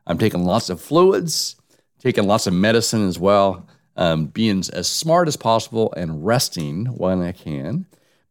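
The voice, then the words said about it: Voice off from a cold. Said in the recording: “my voice is a little bit off, still fighting this nasty cold, virus”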